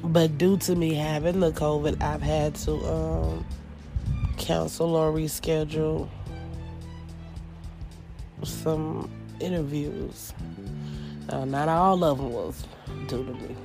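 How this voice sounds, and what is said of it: Worn-out, hoarse sick voice. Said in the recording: “As you can hear, my voice is still shot”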